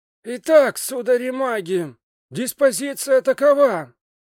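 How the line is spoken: Loud announcement. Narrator (Russian): произнес он громко, чтобы слышали все

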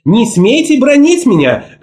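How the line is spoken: Playfully defiant shout. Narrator (Russian): крикнула шутливым вызовом

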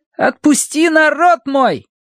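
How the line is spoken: Boys shouting. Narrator (Russian): мальчишки возраста Колина, которые кричали

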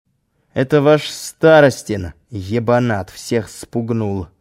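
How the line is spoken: Through clenched teeth. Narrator (Russian): процедил Володя

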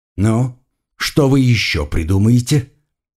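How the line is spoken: Through gritted teeth. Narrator (Russian): процедил сквозь зубы оператор

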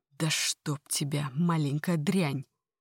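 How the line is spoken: Quiet hiss. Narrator (Russian): тихое шипение

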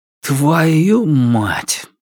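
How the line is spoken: Quiet blurted curse. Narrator (Russian): вырвалось из меня негромко

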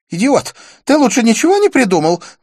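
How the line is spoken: Girl exclaiming. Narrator (Russian): воскликнула девушка

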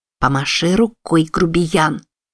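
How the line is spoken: Hissed while smiling. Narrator (Russian): Продолжая улыбаться, прошипела

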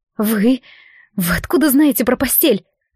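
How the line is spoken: Startled hiss. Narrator (Russian): Вскинувшись, зашипела Морет

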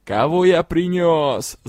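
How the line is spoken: Troll yelling. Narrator (Russian): завопил тролль

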